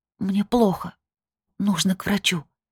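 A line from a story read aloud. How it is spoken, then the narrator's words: Whisper. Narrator (Russian): прошептала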